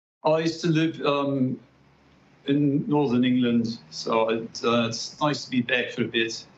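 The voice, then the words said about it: Slight British accent. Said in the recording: “slight British accent”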